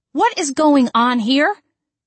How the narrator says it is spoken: yelled

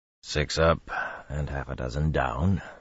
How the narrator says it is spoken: Bashir said softly

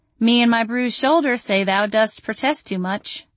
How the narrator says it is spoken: I said dryly

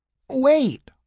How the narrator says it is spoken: she begged

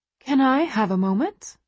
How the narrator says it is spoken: She asks brightly

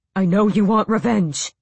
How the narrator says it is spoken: he panted

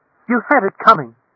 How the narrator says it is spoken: a woman cried out

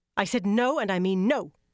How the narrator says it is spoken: Elaine snapped

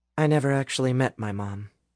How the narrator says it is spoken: Alice said softly

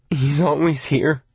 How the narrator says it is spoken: Arnie groaned

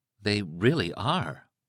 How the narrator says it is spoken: said in a soft, awed voice

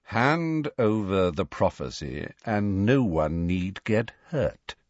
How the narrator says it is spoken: said Malfoy coolly

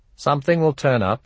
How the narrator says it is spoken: said

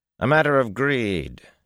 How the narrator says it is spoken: he said finally

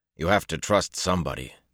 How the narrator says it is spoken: Perrin said roughly

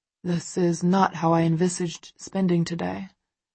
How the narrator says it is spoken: Christian murmurs into my hair

